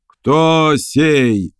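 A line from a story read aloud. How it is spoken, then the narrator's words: Roaring voice. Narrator (Russian): взревел чей-то голос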